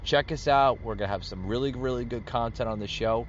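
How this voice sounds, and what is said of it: Tired-sounding voice. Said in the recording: “as you can hear in my voice, I'm getting tired. I need a glass of water.”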